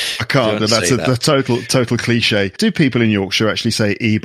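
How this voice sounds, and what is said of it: Usual voice. Nothing is said of it.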